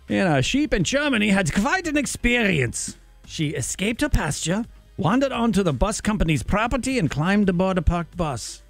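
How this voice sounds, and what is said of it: Put-on German accent. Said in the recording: “that's enough of the German accent.”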